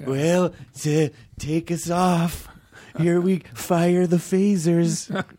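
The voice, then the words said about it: Weak Ronald Reagan impression. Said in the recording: “Is that a good Reagan impersonation? ... No. ... Not even.”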